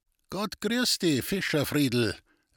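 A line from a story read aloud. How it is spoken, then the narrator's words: Calling out. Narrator (German): rief er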